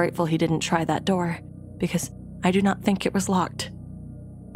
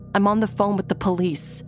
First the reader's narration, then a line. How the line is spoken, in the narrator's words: shouted